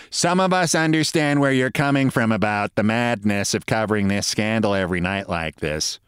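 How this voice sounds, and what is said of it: Imitates another person's voice. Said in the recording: “my impression. That's what she sounded like.”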